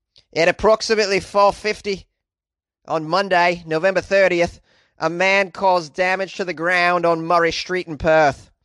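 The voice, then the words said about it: Terrible put-on Australian accent. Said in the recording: “I'm going to read the police report here with a terrible Australian accent, so please brace yourself ... That was terrible”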